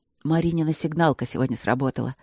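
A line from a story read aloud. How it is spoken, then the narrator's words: Quiet. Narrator (Russian): сказал Мартин тихо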